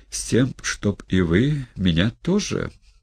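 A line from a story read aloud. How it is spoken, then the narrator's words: Heartfelt voice. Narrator (Russian): проникнутым голосом промолвил Тихон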